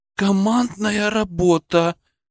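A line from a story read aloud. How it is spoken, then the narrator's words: Admiring exhale. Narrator (Russian): восхищенно выдохнула Белочка Борисова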